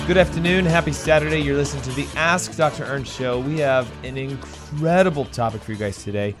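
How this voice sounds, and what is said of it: Hoarse, strained voice. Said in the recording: “Pardon my voice. I've been speaking all week ... So I do have a little bit of laryngitis”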